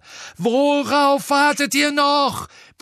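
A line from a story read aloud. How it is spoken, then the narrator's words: Bellowed. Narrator (German): brüllte Harry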